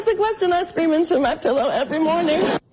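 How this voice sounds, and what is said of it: Kamala Harris impression. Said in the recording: “did a great Kamala Harris impersonation ... she did a spot-on Kamala Harris impersonation”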